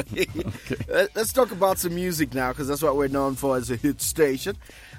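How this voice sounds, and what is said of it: Usual voice. Nothing is said of it.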